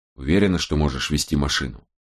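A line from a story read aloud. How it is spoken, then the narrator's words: Whisper. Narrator (Russian): шепнул Страйк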